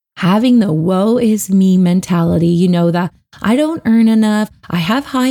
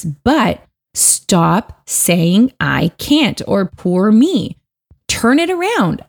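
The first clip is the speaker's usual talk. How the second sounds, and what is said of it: Stern scolding mom voice. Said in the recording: “I'm going to use my mom voice now. It's a thing, ask my friends, I scare them sometimes”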